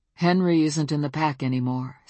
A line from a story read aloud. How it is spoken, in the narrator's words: said Bran